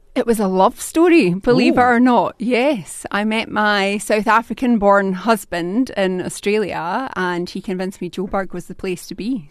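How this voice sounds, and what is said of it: Scottish Glaswegian accent. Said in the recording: “That's a Scottish accent, isn't it? ... It is indeed a Glaswegian accent.”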